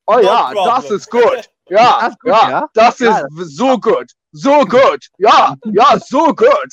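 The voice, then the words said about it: Put-on German accent. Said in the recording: “As soon as I hear German in the porn ... I can deal with any other accent, literally any other accent.”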